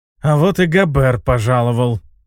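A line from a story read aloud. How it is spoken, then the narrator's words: Hissing through teeth. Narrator (Russian): прошипел сквозь зубы Видаль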